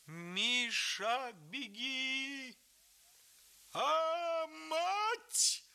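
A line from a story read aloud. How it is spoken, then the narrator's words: Old man's terrible howl. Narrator (Russian): Страшно взвыл дед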